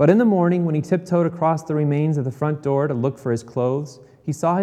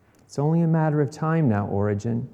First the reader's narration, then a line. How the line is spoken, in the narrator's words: said quietly